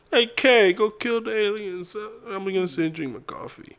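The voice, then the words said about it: Imitates another person's voice. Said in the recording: “good Christopher Walken impression ... Actually, that was pretty good. I think you got the mannerisms, the speech pattern right.”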